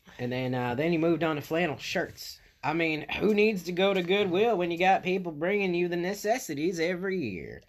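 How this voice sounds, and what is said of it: Put-on accent. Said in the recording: “I'm going to fall out of this accent because it's killing me.”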